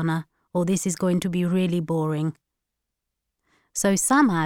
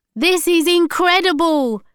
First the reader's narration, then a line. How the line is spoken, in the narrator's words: shouted Milat through the wind